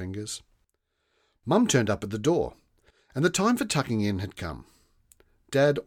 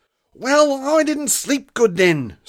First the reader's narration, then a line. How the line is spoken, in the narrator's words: snapped Rosa